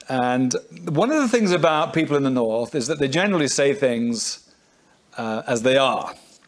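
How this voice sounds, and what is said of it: Welsh and northern English accent. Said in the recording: “I possibly might think it's got a strange accent. Well, my roots are in Wales, my mother's side, and on my father's side in the north of England”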